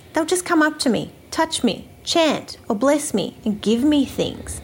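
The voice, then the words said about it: Australian accent. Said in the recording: “excuse the Australian accent. I know it can be a little bit hard to understand ... your delightful Australian accent”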